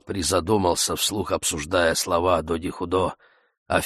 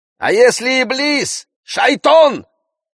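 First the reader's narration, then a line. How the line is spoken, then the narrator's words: Shout from crowd. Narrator (Russian): крикнули из толпы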